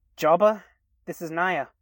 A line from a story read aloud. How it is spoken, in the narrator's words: she spoke, her voice coming out nervous and rushed, a sharp contrast from her usual laid-back self